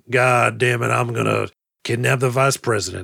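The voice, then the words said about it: Imitates another person's voice. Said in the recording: “That's not a terrible Powers Booth impression.”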